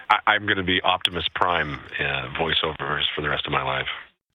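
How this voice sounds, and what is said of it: Deep boomy radio voice. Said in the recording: “You got a lovely radio voice ... That bottom boomy sound.”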